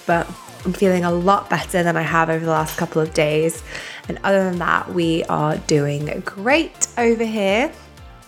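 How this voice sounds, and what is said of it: Slightly sniffly, congested voice. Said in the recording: “I sound a little bit sniffly ... I have a little bit of a cold”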